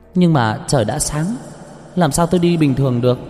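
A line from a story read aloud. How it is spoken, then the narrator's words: Laughing loudly. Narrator (Vietnamese): Cờ Nơ cười lớn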